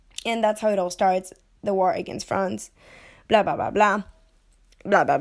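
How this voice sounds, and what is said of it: Breathless, out-of-breath voice. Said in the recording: “I'm running out of breath. I'm a sick woman.”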